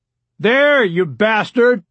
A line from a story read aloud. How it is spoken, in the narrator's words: Rebecca Klein's father shouted